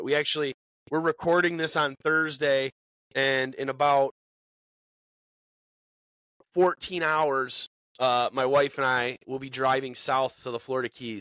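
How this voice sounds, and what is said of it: Congested, sniffly voice from cold. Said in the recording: “listen to me sniffle ... Sorry if I sound congested ... I'm trying to kick this cold”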